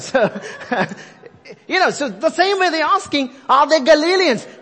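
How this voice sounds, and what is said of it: Indian English accent. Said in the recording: “So I'm sticking with my Indian accent”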